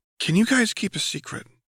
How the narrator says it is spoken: whispered

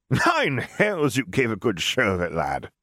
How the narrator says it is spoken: he said between bouts of laughter

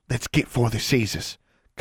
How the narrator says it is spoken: Constance whispered

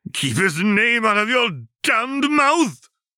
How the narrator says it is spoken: James roared

